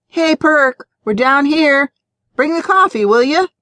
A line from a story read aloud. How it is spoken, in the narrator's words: Bloom called out